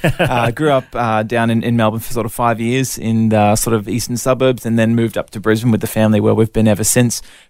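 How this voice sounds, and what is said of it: Somewhat mixed Australian accent. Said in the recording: “I'm 100% Aussie, even if my accent now sounds a little bit confused”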